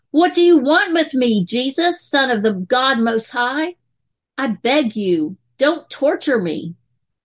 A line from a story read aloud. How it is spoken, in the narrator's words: he cried out and fell at his feet, shouting at the top of his voice